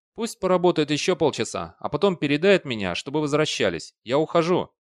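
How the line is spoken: Shouted. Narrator (Russian): крикнул Бену

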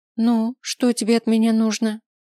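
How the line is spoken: Calm, carefully controlled voice. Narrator (Russian): максимально спокойно и постаралась, чтобы и в голосе не звучало лишних эмоций

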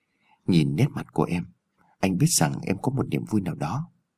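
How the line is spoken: Soft, gentle. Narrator (Vietnamese): anh khẽ nói

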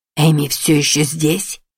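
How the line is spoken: Hoarse question. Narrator (Russian): хрипло спросил он

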